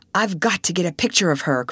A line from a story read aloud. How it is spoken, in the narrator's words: cried Russ